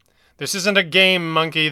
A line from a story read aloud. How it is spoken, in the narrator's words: the Red Panda snapped